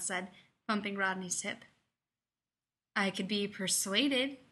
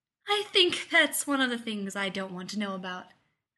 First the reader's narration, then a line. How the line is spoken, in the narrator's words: Elizabeth said, laughing